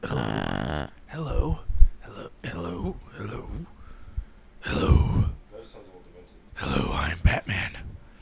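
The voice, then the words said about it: Christian Bale Batman voice, Wolverine-like. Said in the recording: “You sound like Christian Bale Batman mixed with like someone trying to do a Wolverine voice.”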